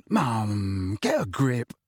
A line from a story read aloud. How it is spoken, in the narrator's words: he muttered